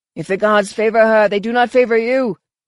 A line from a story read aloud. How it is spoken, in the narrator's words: snapped